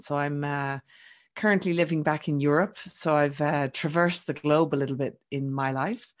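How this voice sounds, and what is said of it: Irish accent. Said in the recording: “I'm Irish, for those that haven't picked up my accent”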